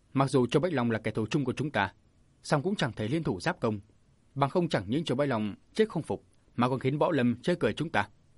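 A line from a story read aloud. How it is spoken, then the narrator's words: Stern. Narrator (Vietnamese): Diêu Kiệt nghiêm giọng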